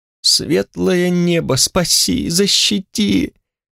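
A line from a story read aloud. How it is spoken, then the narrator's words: Moaning thief. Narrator (Russian): застонал в темноте воришка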